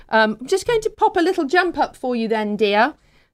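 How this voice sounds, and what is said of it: Very strong British accent. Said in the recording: “in a very strong British accent”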